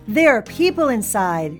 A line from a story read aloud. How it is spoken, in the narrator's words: she heard the chief shout